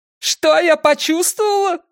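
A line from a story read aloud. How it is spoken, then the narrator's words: Shouted out. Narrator (Russian): выкрикнула она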